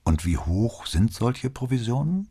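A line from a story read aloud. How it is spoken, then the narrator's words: Calm question. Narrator (German): fragte Brunetti mit ruhiger Stimme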